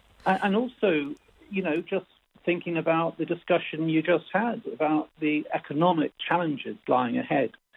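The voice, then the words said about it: British accent. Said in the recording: “the British accent.”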